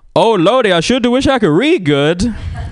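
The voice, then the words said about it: Put-on stereotyped Black American accent. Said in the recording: “Yeah, I can do the black accent. You want me to do it?... Yeah, do the black accent.”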